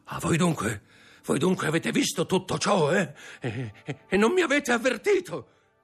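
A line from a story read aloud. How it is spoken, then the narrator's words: Shout. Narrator (Italian): gridò Caderus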